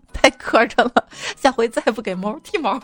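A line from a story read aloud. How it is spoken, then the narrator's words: Bursting into laughter. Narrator (Chinese): 他忍不住笑的喷出来，说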